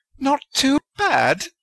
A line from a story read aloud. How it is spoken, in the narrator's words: Rowena shrieked